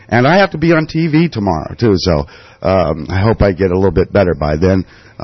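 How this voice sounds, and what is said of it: Sick-sounding voice. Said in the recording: “I have been sick. Obviously, you can hear it in my voice.”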